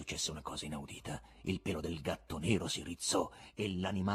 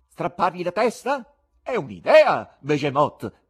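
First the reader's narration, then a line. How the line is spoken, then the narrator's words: Shouted. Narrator (Italian): gridò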